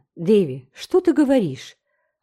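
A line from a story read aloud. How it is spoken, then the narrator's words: Alarmed exclamation. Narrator (Russian): воскликнула Энн, осознав свою ошибку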